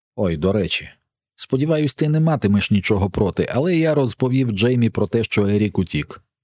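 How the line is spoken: Plain. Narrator (Ukrainian): сказав я

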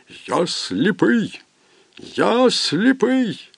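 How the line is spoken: Terrible voice moaning, screaming. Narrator (Ukrainian): страшний голос у кімнаті за дверима простогнав і закричав

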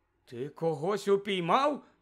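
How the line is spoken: Incredulous exclamation. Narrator (Ukrainian): недовірливо вигукнув містер Кравч

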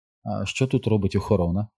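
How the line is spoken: Quiet question. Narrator (Ukrainian): тихо спитала

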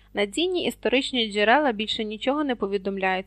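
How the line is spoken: Plain. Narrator (Ukrainian): сказав він

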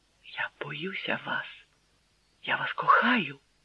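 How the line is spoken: Whispered. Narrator (Ukrainian): прошепотіла

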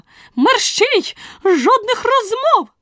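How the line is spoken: Sharp scolding shout. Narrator (Ukrainian): Королева прикрикнула

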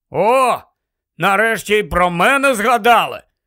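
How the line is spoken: Grumbling mutter. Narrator (Ukrainian): буркнув Рон

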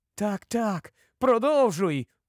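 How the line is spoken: Excited exclamation. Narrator (Ukrainian): у запалі вигукнув Кордл

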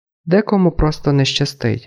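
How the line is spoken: Calm, detached. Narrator (Ukrainian): додала вона спокійно, ніби йшлося не про неї саму

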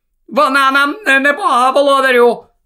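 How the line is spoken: Shouting over laughter. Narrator (Ukrainian): перекрикнула вона повінь веселого реготу

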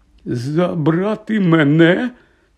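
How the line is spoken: Trembling question. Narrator (Ukrainian): тремтячим голосом перепитав Гегрід

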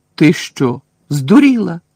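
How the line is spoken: Exclamation. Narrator (Ukrainian): вигукнув Рон

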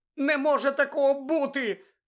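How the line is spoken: Shout. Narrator (Ukrainian): крикнула Герміона

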